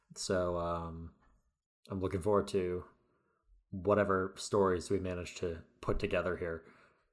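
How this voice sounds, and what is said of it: Tired-sounding voice. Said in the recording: “is tired tonight. I don't know if you can tell from his voice.”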